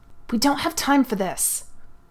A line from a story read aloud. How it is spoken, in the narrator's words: Nureyev hissed